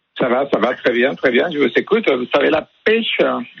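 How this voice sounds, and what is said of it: Sing-song Mexican Spanish accent. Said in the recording (French): “un accent de quel... De l'Espagne... Ça vient de Mexico... c'est presque comme l'Espagne, c'est chantant. C'est le soleil dans la voix”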